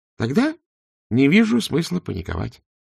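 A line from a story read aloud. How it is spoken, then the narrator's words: Calm. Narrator (Russian): спокойно сказал Два Цветок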